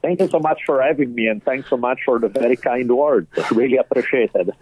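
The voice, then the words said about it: Heavy Italian accent. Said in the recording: “the tiny bit of an accent that I may have ... my heavy Italian accent never leaves me”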